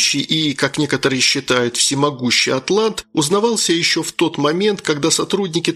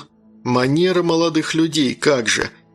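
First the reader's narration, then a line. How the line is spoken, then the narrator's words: Grumbling. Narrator (Russian): пробурчал я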